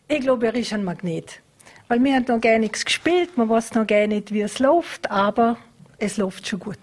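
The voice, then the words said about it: Speaks in regional dialect. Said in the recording (German): “Ich rede Mundart, oder? ... Ja, natürlich.”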